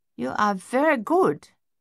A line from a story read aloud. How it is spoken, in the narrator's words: Madame Chassis announced in her heavy accent